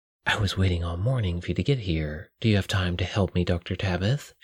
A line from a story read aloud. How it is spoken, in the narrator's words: she whispered in his ear